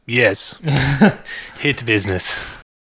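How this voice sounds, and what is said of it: Put-on Russian-sounding accent. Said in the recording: “That's not a Saudi Arabian accent. ... It's more Russian. ... It sounded like more like something from Breaking Bad.”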